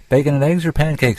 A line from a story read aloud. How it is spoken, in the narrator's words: she said, then laughed